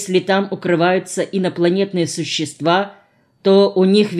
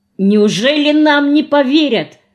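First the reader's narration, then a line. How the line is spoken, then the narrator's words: Exclaim. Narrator (Russian): воскликнула Вика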